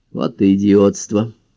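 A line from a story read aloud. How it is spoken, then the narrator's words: Grumbling. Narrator (Russian): буркнул Монтгомери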